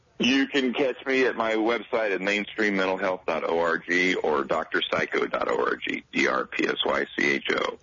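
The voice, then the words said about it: Smooth broadcaster-style radio voice. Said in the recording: “Nice radio voice”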